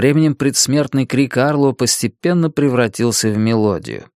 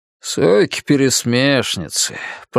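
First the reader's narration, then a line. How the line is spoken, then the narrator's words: Grumbling soldier. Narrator (Russian): проворчал солдат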